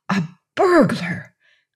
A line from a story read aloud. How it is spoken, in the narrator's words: gasped